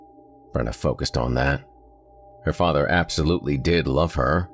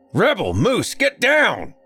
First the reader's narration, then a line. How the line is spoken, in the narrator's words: came a deep bellow from the front door of the house